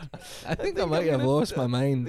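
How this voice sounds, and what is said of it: Ridiculous put-on accent. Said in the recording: “this ridiculous accent”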